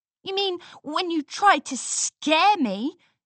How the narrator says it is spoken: Scootaloo responded angrily

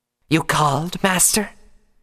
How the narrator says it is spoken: Hashimisa hissed

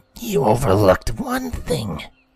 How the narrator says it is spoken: Rainbow growled

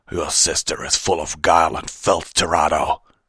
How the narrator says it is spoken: Fenrir snarled

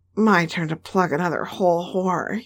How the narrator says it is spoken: he grunted

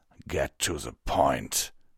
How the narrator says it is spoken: Vanguard growled

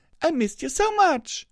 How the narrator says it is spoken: she said between sobs

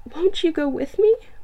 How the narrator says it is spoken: pleaded the girl

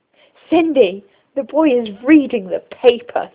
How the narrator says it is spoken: shouted

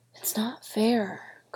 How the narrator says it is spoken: Chris whispered over and over

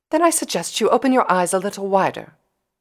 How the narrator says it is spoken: Rarity said sharply

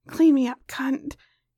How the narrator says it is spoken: he growled

